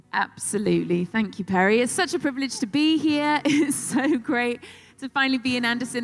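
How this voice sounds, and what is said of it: British accent. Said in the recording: “she's got the coolest accent in the world. It's British.”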